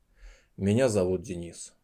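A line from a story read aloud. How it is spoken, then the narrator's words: Dry, curt. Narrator (Russian): сухо начал мужчина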